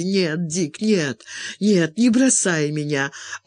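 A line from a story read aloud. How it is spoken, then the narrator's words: Sobbing. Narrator (Russian): Она зарыдала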